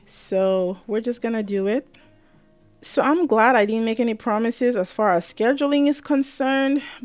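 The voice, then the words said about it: Tired voice, dry throat. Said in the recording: “you could probably hear in my voice, I'm a little tired and it's coming through in my voice. My throat is a little dry”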